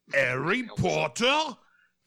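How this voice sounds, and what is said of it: Fake British accent. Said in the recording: “That's my fake British accent. I don't know what it was.”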